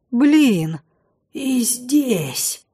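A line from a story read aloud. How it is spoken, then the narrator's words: Incredulous whisper. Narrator (Russian): Неверяще прошептал Лин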